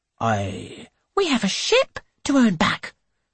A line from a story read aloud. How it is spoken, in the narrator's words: she snaps